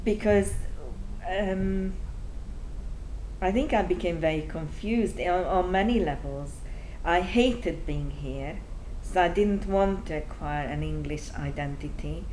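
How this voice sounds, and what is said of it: Strong Hungarian accent in English. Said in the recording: “I wish I could speak English without an accent ... I'm from Hungary ... my accent is still so strong”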